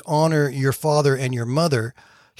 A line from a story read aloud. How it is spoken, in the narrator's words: asked